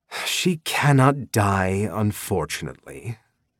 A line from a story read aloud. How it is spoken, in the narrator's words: Mob sighed